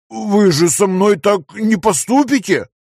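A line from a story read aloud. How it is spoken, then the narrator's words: Moaning. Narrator (Russian): простонал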